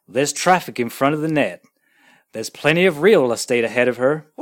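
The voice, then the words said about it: Put-on American accent. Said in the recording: “I'm going to do these in my best American accent.”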